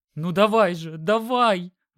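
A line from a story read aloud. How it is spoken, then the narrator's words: Hysterical screaming. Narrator (Russian): в истерике кричала Олеся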